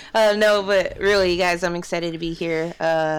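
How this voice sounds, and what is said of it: Usual voice. Nothing is said of it.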